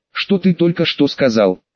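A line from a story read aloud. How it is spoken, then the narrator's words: Stunned girl's question. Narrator (Russian): девочка спросила ошарашенным тоном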